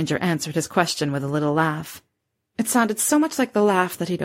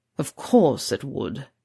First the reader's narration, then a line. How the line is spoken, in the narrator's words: he growled